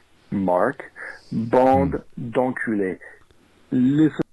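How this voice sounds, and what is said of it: Bad put-on French accent. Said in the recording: “stupid asinine French accent? ... That's not working.”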